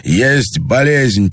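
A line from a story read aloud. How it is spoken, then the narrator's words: Near shout. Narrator (Russian): почти крикнул Андрей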